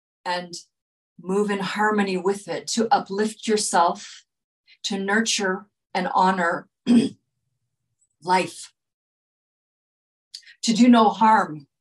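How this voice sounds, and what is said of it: Hoarse, fading voice. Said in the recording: “I'm losing my voice here, I've been talking a lot”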